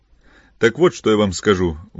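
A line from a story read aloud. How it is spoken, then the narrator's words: Angry exclamation. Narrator (Russian): воскликнул Филипп, весь красный от гнева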